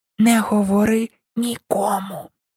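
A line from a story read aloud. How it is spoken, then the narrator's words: Whispered into ear. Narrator (Ukrainian): вона шепотіла на вухо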